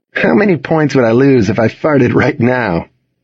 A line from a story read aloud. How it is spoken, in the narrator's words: Luke asked with a chuckle